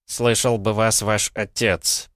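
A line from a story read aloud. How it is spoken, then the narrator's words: Muttered through teeth. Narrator (Russian): процедил кто-то из толпы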